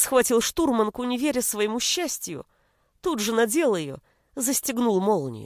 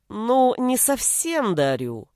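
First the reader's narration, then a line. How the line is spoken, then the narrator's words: Drawling. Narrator (Russian): протянул Гришка, также равнодушно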